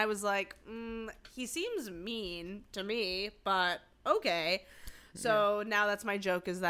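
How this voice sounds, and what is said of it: Usual voice. Nothing is said of it.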